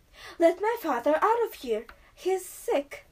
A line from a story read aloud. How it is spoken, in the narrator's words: exclaimed